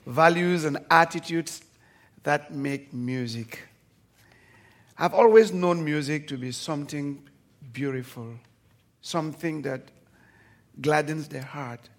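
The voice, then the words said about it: Speaks with a noticeable accent. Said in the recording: “I will a little bit be gentle because of my accents”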